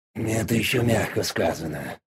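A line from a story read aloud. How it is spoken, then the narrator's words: Grumbled from aside. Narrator (Russian): буркнул сбоку Дориан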